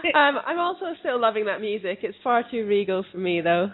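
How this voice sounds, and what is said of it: Mixed Scottish-English accent. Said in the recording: “She's originally from Scotland. Her accent is a big mess.”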